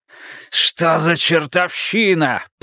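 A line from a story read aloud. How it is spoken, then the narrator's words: Growling. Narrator (Russian): прорычал он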